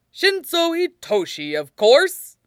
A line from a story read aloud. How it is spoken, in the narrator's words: All Might said with another booming laugh